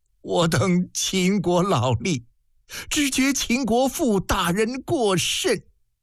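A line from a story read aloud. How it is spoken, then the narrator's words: Choked sob. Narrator (Chinese): 楚书立一声哽咽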